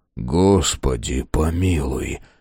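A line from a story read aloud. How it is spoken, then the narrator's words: Hopeless sigh. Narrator (Russian): безнадежно вздохнул Фрейзер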